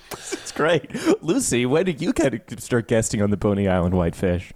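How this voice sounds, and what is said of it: Usual voice. Nothing is said of it.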